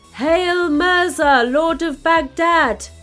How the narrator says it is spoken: shouted

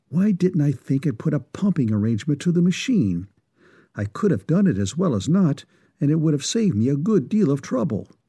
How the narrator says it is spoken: muttering to himself

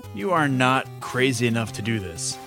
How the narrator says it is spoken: sighed Elias

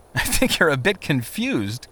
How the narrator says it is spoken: Christian laughed

